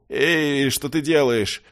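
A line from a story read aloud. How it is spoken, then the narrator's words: Young man howling. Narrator (Russian): взвыл парень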